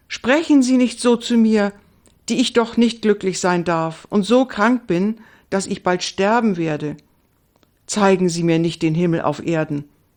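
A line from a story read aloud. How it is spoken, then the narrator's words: Confused exclamation. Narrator (German): rief Indiana ganz verwirrt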